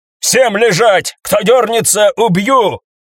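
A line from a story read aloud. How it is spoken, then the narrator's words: Barked. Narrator (Russian): рявкнула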